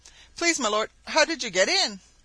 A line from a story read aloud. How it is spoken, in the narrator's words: cried the tiger impatiently